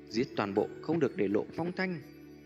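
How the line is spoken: Cold shout. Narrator (Vietnamese): đầu lĩnh áo đen quát lên lạnh lẽo

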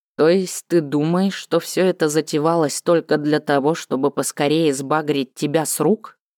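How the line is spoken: Calm but hurt. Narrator (Russian): спросил он спокойным тоном, но слышно было, что слова дочери задели его за живое

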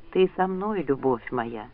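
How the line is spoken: Muttering. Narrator (Russian): пробормотал Ранд

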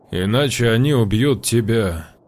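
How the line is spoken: Calm. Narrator (Russian): спокойно произнес Гречкин

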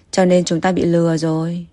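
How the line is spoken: Sighing. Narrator (Vietnamese): Vạn Lãng thở dài

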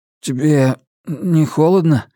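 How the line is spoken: Hoarse question. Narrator (Russian): хрипло спросил он

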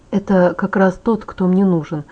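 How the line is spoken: Muttering. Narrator (Russian): пробормотал он

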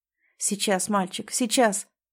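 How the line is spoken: Nervous mumble. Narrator (Russian): бормотал Женя

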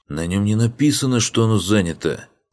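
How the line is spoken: Indignant snapping retort. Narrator (Russian): Огрызнулся кучер Ригарди, который привык к тому, что карете канцлера всегда уступали дорогу

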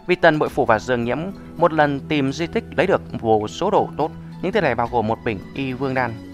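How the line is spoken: Stammering. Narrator (Vietnamese): Tự Tại Vương lắp bắp nói

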